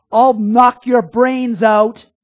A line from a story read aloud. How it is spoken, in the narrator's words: shouting